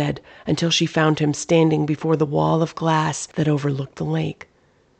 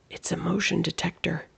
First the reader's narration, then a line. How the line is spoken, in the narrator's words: he whispered